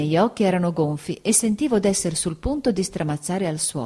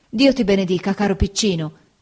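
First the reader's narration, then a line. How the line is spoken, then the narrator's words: Exclaimed. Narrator (Italian): esclamò Peggoty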